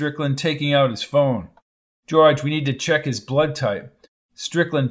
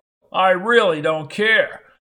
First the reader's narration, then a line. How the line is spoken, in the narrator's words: yelled Strickland